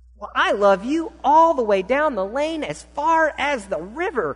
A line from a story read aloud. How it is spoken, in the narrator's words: cried Little Nut Brown Hare